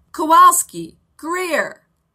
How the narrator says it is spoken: Coach yelled

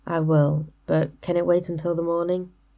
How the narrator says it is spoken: Aziraphale sighed

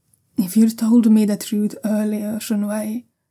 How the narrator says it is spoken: Jiaolan says quietly

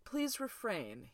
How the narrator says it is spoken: he said dryly

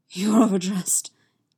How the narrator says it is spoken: he gasps

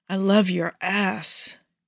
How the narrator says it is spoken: Malik groans in ecstasy

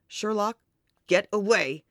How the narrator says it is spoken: he snarls

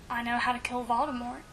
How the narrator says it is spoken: Harry whispered, almost too low

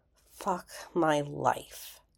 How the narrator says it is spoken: he said bitterly

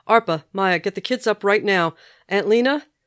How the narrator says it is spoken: shouting

